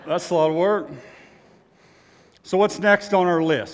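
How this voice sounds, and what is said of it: Out of breath, panting. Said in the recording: “I'm out of breath.”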